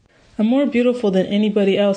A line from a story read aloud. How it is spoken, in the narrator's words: she said brokenly